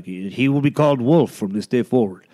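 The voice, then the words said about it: Exaggerated put-on chieftain accent. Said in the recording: “That was a weird like half Indian, half Native American accent.”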